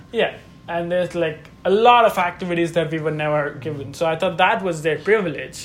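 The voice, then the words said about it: Speaks with a non-native accent. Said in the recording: “I have an accent.”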